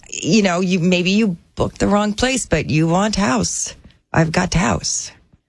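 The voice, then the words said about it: Put-on Eastern European accent. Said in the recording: “Wait, you'd have an accent? ... Is this Eastern European?”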